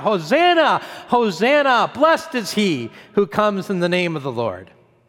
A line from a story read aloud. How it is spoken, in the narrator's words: that crowd as they cried out